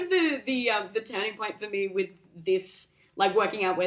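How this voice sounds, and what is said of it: Usual voice. Nothing is said of it.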